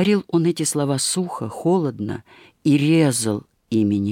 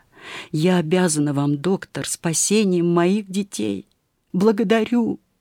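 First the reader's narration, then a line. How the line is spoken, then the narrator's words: Laughing and crying with happiness. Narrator (Russian): смеясь от счастья и плача, княгиня … сказала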